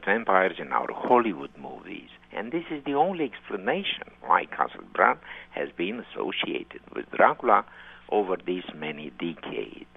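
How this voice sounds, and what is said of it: Distinctive Romanian accent. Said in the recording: “You have such a distinctive and lovely Romanian accent”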